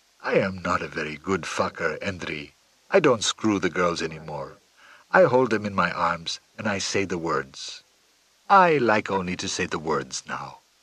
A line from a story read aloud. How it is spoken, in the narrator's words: rather wistfully